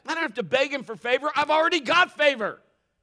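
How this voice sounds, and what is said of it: Yelling, loud preaching voice. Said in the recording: “sorry for yelling.”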